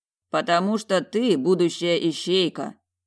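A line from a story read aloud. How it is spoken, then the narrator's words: Stern. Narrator (Russian): строго произнес Олан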